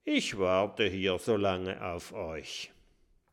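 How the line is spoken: Murmuring. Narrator (German): murmelt

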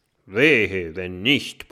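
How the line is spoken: Gruff robber grumbling. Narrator (German): brummt der Räuber

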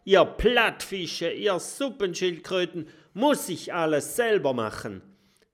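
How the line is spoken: Bellowing. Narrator (German): brüllt

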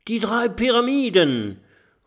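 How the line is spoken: Call. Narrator (German): ruft Kokosnuss

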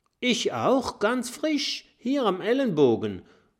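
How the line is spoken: Dragon calling out. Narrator (German): ruft ein Langnasendrache

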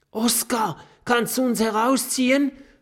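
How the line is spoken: Panting. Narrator (German): keucht Kokosnuss

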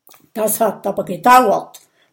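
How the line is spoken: Grumbled. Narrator (German): brummt Gudröd

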